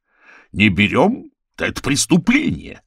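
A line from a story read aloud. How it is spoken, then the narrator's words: Barked. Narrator (Russian): рявкнул Чебе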